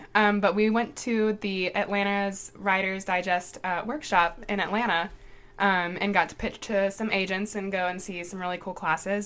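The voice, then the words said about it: Hoarse, weakened voice. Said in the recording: “I lost my voice.”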